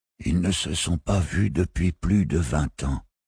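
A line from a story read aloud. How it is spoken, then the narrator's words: Old man whispering. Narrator (French): avait chuchoté le vieux Syracusain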